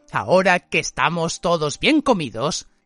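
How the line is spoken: Growl. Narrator (Spanish): Hermión lanzó un gruñido

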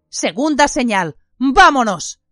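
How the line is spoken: Shout. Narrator (Spanish): gritó Lupin

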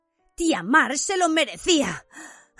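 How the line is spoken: Panting speech. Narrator (Spanish): dijo Harry jadeando

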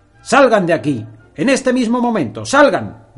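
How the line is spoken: Angry man shouting. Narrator (Spanish): gritó a su vez el hombre enojado

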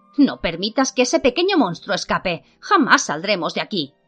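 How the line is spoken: Exclaiming. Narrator (Spanish): exclamó

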